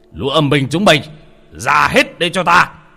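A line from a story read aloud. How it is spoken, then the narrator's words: Shouting angrily. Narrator (Vietnamese): quát lên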